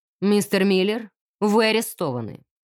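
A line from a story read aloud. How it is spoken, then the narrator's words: Loud declaration. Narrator (Russian): громко заявил инспектор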